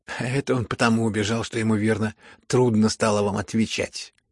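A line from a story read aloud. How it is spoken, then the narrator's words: Laughing young man. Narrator (Russian): засмеялся молодой человек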